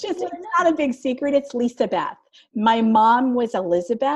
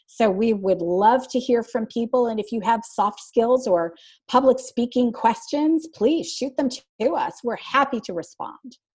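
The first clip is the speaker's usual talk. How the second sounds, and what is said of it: Announcer-style voice. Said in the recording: “you did it in your announcer voice too”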